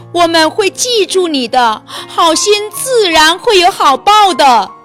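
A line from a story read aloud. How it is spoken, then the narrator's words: Calling out while eating. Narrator (Chinese): 一面吃，一面叫道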